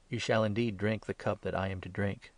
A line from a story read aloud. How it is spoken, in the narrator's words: Jesus said